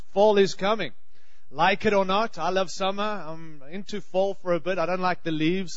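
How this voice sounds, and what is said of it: Australian accent. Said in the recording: “I have a funny accent. I'm from Australia.”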